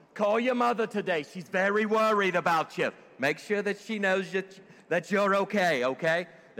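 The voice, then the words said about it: Put-on Jewish accent. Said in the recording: “in my best voice. ... that was my best Jewish voice”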